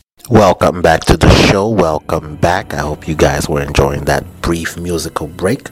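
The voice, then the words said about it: Hoarse, sniffly voice. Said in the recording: “my voice sounds a little hoarse and I keep sniffing. I think I'm catching a cold”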